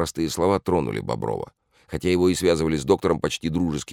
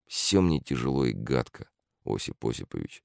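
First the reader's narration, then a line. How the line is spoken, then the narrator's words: Quiet. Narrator (Russian): отозвался тихо Бобров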